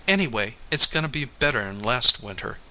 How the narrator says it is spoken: she said

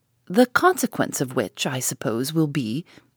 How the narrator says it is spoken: said Mrs

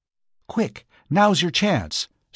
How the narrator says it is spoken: said Lucille eagerly

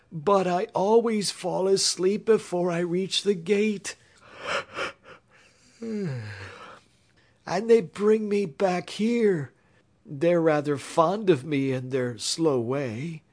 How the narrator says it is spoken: wailed the knight in a discouraged voice

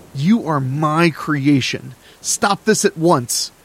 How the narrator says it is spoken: Vincent yelled

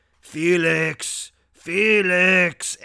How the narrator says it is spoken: He started growling Yusupov's name

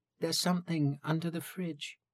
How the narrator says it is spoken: in a small voice

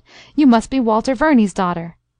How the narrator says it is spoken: cried, forgetting all else in his delight

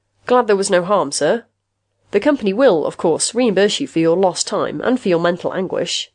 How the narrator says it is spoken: Rath said, in a trained, casual tone

